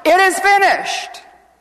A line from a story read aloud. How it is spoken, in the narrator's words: Jesus, with life filling his body, he cried out in a loud voice